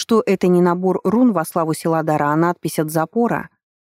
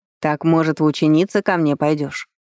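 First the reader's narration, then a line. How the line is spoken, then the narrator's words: Sly sneer. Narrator (Russian): ехидно оскалился Грапос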